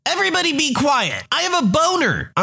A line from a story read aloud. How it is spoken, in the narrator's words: One of my boys yelled out